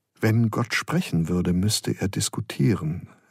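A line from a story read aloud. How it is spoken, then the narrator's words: Gentle reply. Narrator (German): erwiderte Freiregler sanft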